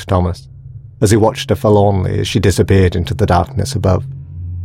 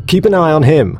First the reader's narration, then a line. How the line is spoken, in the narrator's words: she shouted